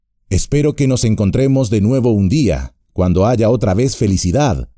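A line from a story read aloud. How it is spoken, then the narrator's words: Plain. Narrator (Spanish): dijo Frodo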